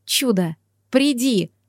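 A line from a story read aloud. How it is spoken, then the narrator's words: Silent inner plea. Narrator (Russian): взмолилась про себя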